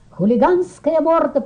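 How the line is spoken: Shouting. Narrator (Russian): прокричал он

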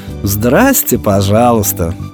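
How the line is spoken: Mocking snort. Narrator (Russian): насмешливо хмыкнула Матрона

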